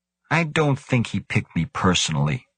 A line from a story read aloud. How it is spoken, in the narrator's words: Grant said